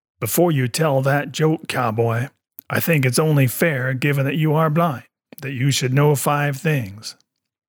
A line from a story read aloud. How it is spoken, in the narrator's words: In a very deep, husky voice, the woman next to him says